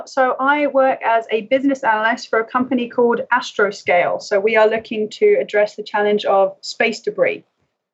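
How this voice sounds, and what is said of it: English accent. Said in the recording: “your English accent has returned.”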